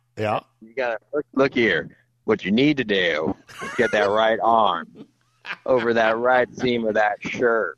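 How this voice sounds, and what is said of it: Deep Alabama accent impression. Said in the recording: “you have that really deep accent from Alabama, so that's first of all. So you got to get really deep.”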